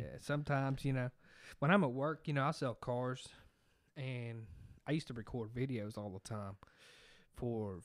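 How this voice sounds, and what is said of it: Rural redneck American accent. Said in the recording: “not have my accent ... You're going to know he's a redneck, too”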